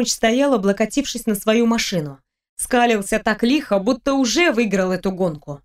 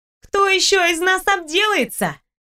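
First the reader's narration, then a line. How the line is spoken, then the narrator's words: Smiling shouted reply. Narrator (Russian): прокричала в ответ, улыбаясь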